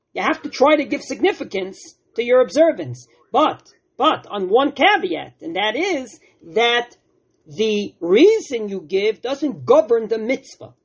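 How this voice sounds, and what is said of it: Brooklyn accent. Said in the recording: “with my Brooklyn accent”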